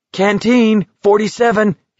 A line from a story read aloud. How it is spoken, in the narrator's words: he shouted